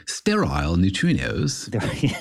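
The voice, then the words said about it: Poor attempt at British Cockney accent. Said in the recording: “pronounce it with a British accent ... sounded like a Cockney accent, maybe ... my UK accent is so bad”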